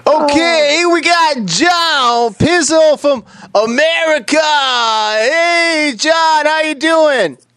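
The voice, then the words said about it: Bill Cosby impression. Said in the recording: “Can I just do it as Bill Cosby? What if Bill Cosby could be the host?”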